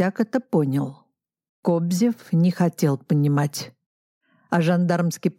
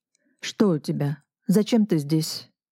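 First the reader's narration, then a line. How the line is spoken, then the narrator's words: Plain question. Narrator (Russian): спросил Мышецкий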